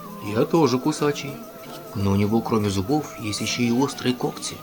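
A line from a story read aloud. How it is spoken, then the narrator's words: Plain, wolf. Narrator (Russian): сказал волк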